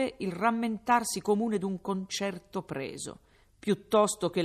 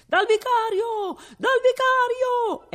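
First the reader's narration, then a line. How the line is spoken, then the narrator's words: Crowd shouting. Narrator (Italian): è il solo grido che si possa sentire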